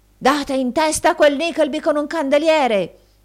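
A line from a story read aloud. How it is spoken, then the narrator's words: Shouting through keyhole. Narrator (Italian): gridò il signor Squeers per il buco della chiave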